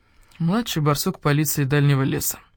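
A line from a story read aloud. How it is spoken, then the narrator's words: Tired elder badger. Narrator (Russian): устало сказал барсук-старший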